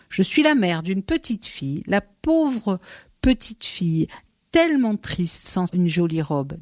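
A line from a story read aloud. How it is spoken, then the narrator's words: Plain. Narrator (French): dit-elle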